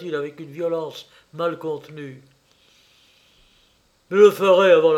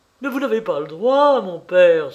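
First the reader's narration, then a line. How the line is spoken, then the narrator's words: Exclaiming. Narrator (French): s'écria-t-il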